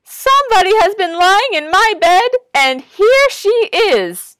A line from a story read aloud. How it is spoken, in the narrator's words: the wee little bear cried